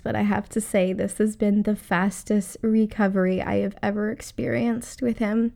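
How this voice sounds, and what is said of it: Voice still sounds unwell. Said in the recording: “I was recovering from COVID ... You can, I'm sure, still hear it in my voice”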